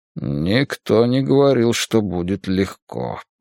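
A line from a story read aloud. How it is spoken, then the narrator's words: Grumbling. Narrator (Russian): проворчал разведчик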